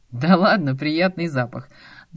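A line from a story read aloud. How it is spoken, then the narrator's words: Friendly laughing. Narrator (Russian): дружелюбно смеялся Ромка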